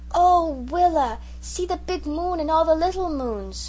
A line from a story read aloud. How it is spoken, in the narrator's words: when he saw the stars he exclaimed